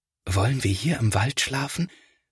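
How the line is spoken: Quiet careful whisper. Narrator (German): flüstert Felix, denn er möchte die Tiere nicht stören

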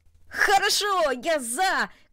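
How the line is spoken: Shout. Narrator (Russian): крикнул он

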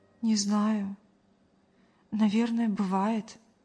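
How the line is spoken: Sighing. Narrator (Russian): вздохнула Мария

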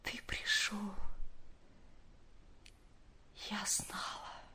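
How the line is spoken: Very quiet. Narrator (Russian): очень тихо промолвила она

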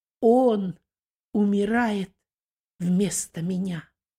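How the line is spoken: Calm despite suffering. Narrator (Russian): второй преступник, спокойно переносящий страдания, обратился к первому

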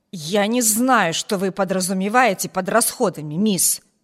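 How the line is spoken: Angry growling. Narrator (Russian): прорычала она, как сердитая собака, готовая наброситься

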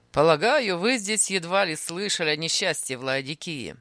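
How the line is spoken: Mocking. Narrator (Russian): сказал он насмешливо

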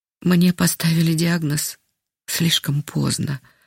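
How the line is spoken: Sighing. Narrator (Russian): вздохнула она

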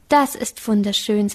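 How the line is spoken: Plain. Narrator (German): sagte sie

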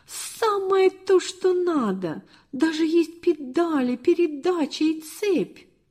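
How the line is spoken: Exclaiming almost in unison. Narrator (Russian): чуть не разом воскликнули

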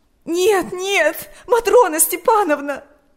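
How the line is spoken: Sobbing. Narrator (Russian): рыдала Ирина

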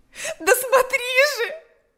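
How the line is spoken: Shouting. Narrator (Russian): закричала она

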